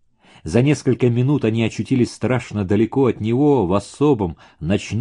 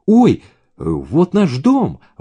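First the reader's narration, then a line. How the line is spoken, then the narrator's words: Exclamation. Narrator (Russian): воскликнула Даша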